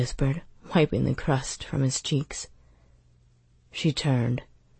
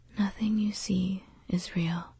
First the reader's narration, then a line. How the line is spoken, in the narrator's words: she said quietly